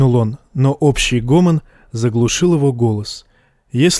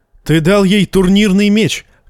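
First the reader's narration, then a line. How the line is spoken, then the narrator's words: Shouted. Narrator (Russian): крикнул Джейме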